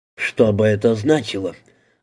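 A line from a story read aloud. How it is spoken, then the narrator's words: Worried muttering. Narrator (Russian): озабоченно пробормотал Дэн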